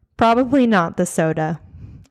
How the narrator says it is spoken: Eric chuckled

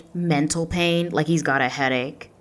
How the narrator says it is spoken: She exclaimed

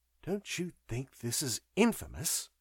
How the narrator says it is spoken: asked March quietly

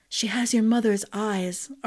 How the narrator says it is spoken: Arden whispered

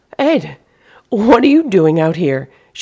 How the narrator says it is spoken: cried out in surprise

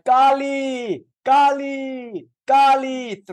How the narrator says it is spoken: Thrice he cried

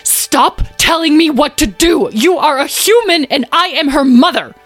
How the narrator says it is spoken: Beatrice's roar and raised voice

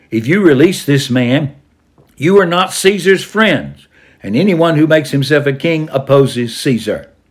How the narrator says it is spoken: But the Jews shouted

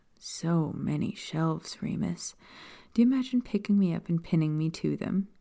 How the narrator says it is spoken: she asked, her tone sultry

